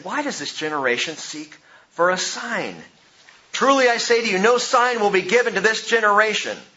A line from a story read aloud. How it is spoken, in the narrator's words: sighing deeply in his spirit, he said